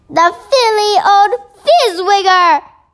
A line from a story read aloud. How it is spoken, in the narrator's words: shouted the BFG